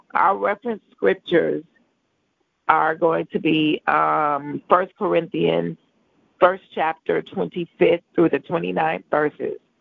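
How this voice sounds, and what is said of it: Congested, rough voice. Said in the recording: “Please excuse my voice. I have a touch of a cold”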